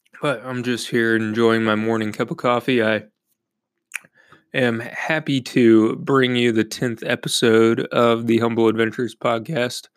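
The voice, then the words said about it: Raspy voice. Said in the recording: “sorry about my voice, by the way, I've had strep throat, the flu, or something like that, so it's going to be a little raspy”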